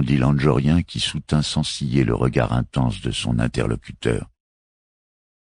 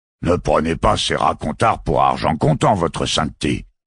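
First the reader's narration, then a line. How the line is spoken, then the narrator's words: Grumbling master gardener. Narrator (French): gronda le maître jardinier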